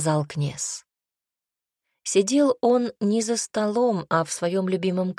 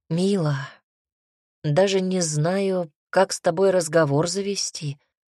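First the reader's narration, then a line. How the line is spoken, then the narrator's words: Sighing father. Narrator (Russian): вздохнул отец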